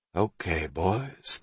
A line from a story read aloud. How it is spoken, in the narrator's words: the sergeant major breathed